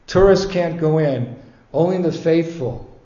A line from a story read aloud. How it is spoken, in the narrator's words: said Padmalochan